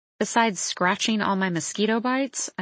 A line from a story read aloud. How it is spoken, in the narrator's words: I mutter